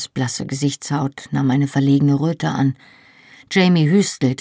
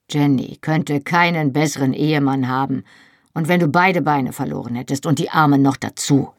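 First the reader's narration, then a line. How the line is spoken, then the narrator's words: Gruff. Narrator (German): sagte Jamie schroff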